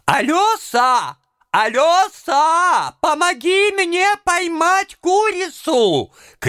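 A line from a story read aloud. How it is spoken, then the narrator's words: Cook shouting. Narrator (Russian): кричала кухарка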